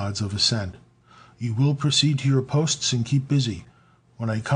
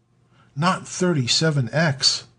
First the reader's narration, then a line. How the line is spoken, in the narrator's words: exclaimed one of the older men